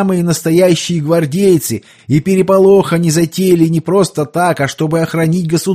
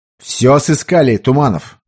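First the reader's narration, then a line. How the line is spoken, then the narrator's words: Stern question. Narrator (Russian): строго поинтересовался Петр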